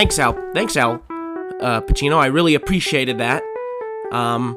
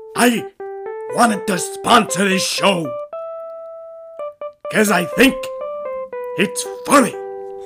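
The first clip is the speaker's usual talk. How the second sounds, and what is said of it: Imitates another person's voice. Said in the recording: “Al Pacino likes our, our show ... There was not Al Pacino. It was me doing an impression”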